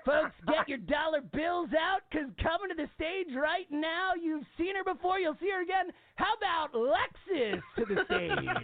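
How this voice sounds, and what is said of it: Strip club DJ announcer voice. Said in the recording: “doing an impression of a strip club DJ”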